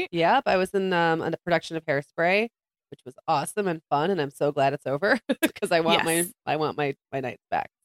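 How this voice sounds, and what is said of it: Raspy voice. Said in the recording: “Got my raspy voice on today. ... we both had bad colds last week.”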